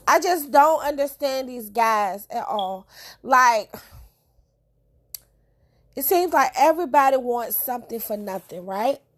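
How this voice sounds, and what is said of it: Congested voice from a cold. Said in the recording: “I have a cold, so I know I sound awful.”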